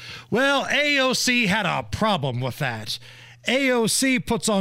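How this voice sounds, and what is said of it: Usual voice. Nothing is said of it.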